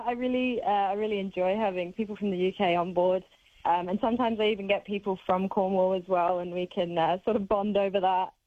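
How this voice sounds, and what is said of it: Hybrid British-Australian accent. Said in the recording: “you've really perfected that Aussie accent too. You can't really tell. ... It's a bit of a hybrid accent nowadays.”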